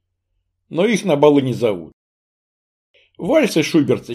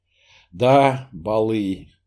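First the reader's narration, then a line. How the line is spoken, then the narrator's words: Sigh. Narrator (Russian): вздохнул он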